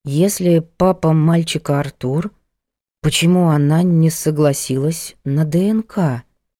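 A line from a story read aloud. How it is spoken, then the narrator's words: Confused drawl. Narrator (Russian): растерянно протянула Ада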